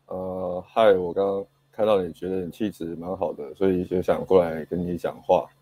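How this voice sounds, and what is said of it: Low, sleepy, timid-sounding voice. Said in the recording (Chinese): “语气语气语气语气很比较低一点，然后就听起来很爱困这样”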